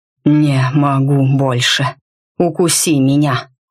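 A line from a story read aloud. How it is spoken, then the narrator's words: Hoarse breathless exhale. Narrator (Russian): Хрипло выдохнул Рид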